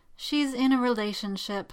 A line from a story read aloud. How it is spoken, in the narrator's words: Morgana said gloomily